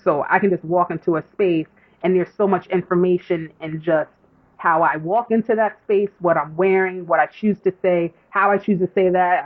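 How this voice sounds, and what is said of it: New York accent. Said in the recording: “my accent. So I don't realize how I sound so New York”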